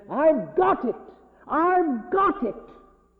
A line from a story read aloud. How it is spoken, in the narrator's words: he jumped up, snapped his fingers and said